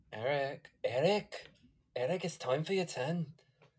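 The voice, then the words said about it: Speaks in a put-on accent. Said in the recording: “I'm having so much fun with this accent.”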